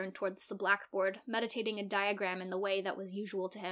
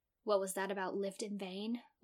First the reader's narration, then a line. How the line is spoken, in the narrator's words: whispered one student to another